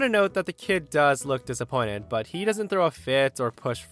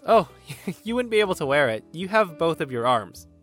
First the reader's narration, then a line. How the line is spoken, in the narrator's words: laughs and says